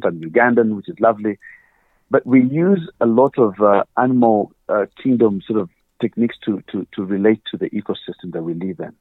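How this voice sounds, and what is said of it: Ugandan African accent. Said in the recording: “I'm originally African, obviously, as you can tell from my accent.”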